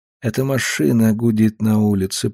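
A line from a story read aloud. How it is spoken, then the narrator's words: Mumbled. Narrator (Russian): пробормотал он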